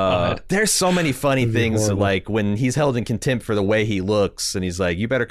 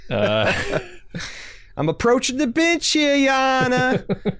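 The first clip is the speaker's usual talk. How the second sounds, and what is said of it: Put-on Brooklyn accent. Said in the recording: “a whole Brooklyn court where everybody's talking in this like, I'm walking here kind of accent”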